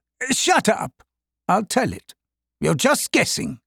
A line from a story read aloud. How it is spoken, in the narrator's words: the captain said